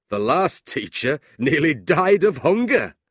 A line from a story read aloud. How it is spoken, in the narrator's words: John laughed